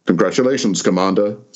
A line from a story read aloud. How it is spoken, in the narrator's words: said Kizemba